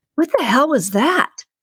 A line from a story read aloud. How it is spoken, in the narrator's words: Randy cried out